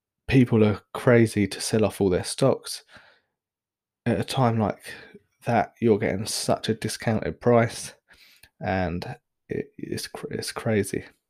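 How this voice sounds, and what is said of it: Hoarse, fading voice. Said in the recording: “as you can probably hear, I'm starting to lose my voice. ... cold.”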